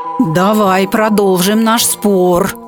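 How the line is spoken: Growled angrily. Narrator (Russian): злобно зарычав, сказал Пейка

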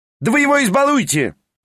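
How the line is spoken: Shouted. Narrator (Russian): прокричал Петр Степанович

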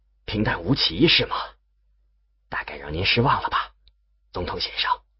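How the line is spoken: Low quiet reply. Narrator (Chinese): 旁边另一位低声回答

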